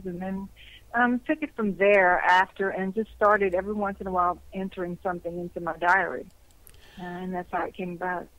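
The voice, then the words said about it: Cajun-accented American English. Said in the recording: “you speak with a Cajun accent ... you will have somewhat of a Cajun accent ... it's charming”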